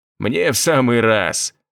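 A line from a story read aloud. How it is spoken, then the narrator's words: Laughing. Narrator (Russian): Артур засмеялся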